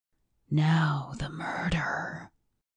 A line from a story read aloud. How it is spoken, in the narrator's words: came from Thorpe in a whisper that sounded as if it was outside the building and far away